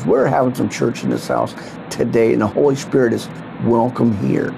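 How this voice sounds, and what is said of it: Hoarse, strained voice. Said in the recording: “it sounds like I'm losing my voice.”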